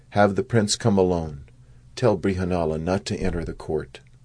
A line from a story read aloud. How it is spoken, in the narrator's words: Yudhisthir whispered to him